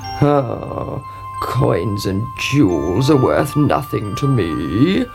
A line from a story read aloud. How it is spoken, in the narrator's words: croaked the frog